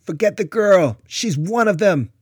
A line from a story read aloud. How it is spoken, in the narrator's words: captor hollered